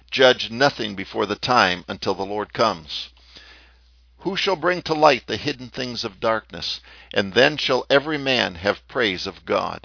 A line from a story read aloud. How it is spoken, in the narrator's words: In the face of the condemning multitudes, it cries